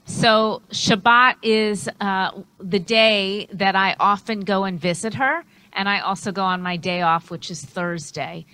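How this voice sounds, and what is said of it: New York City accent. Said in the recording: “I'm originally from New York City, as I'm sure you could tell from my accent.”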